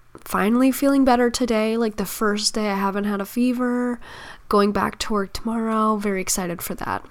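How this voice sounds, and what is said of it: Hoarse, nearly gone sick voice. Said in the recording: “If you can't tell, I am sick. My voice is just about gone.”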